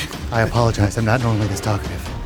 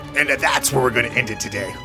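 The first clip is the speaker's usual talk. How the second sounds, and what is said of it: Dramatic narrator voice. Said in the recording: “Say in the narrator voice.”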